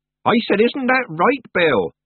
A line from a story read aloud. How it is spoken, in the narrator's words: Nanny repeated, raising her voice